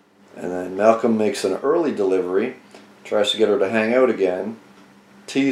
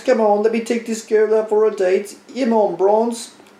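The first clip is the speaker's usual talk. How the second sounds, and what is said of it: Bad put-on English accent. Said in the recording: “that is a terrible English accent.”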